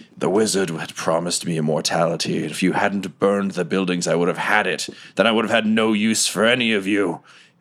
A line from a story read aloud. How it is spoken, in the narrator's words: Grimebottom kind of like snarls and looks to you, Mudbutt, and he says